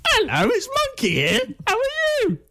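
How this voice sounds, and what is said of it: Puppet voice, own voice slightly pitched. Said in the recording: “do you do a voice when you do Monkey ... It's just your voice, but ever so slightly pitched.”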